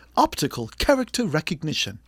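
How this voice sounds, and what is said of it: Put-on British accent. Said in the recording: “Do you have to use a British accent to say it?”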